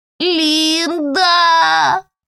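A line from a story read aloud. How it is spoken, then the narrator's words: Whimpered. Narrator (Russian): прохныкал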